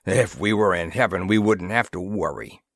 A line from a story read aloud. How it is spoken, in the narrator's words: grunted Breska